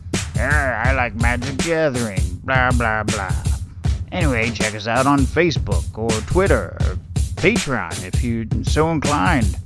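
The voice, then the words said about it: Imitates another person's voice. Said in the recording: “here's my best impression of Pat.”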